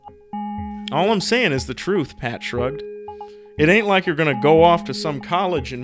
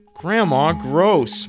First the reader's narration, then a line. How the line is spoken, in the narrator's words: Maddie shouted